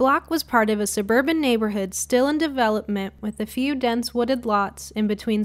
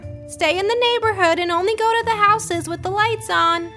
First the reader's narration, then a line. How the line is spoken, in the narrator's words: yelled after us